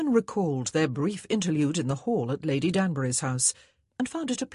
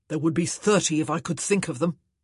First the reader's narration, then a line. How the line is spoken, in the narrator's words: Antony growled